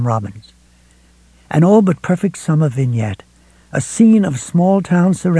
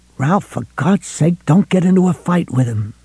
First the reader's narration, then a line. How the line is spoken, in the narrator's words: McGovern hissed